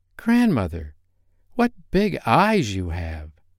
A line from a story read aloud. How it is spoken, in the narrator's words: exclaimed Red Riding Hood, surprised